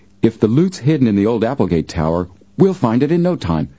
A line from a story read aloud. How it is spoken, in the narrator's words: Frank exclaimed